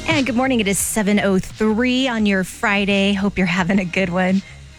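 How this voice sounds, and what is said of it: Out of breath speaking. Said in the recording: “getting out of breath”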